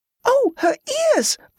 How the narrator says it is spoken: a girl squealed with delight

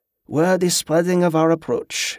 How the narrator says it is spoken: Dutram sighed

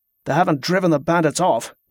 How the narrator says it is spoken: Wick grumbled

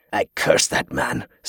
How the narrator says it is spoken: Sidois muttered

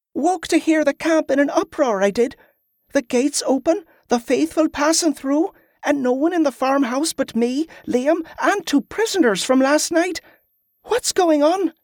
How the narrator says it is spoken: pleaded

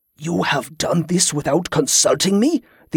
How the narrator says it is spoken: the old Sabrian said in a shocked hiss

